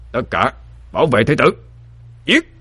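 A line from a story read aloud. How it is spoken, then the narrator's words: Captain's commanding shout. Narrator (Vietnamese): Thuyền trưởng quát lên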